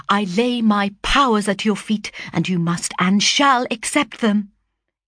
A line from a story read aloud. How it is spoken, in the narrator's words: he exclaimed, impetuously starting to his feet